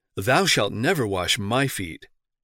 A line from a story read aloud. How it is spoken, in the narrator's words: With great emphasis he exclaimed